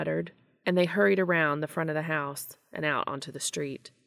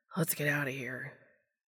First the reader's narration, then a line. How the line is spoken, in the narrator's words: Sam let out a sigh and then said